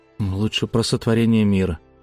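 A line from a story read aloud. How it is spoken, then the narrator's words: Grumbling mutter. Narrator (Russian): буркнул я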